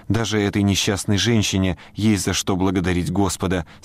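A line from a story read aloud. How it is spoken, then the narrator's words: Plain. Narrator (Russian): сказала миссис Коуп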